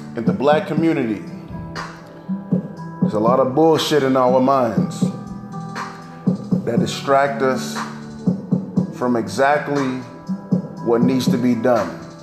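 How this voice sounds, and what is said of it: African American speaking voice. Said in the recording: “you could tell by my voice that I'm a black man”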